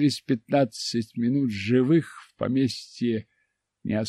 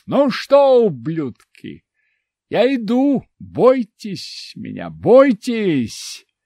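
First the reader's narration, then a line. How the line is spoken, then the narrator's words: Loud, angry shout. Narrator (Russian): зло усмехнулся, громко крикнув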